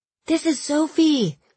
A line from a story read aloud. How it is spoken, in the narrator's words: shouted